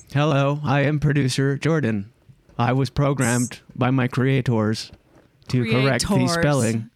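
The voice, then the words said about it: Robotic voice. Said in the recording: “your voice. The robot voice. ... I hit my throat with my index and my middle finger.”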